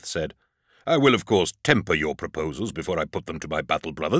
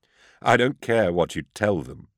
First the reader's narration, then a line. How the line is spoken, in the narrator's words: I chuckled